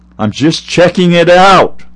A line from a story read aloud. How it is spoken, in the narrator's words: yelled after